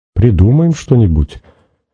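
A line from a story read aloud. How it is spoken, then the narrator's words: Hesitant. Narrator (Russian): неуверенно сказала Надя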